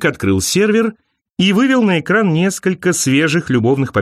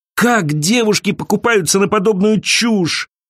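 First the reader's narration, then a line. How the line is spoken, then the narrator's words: Groaning. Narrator (Russian): простонала Элиза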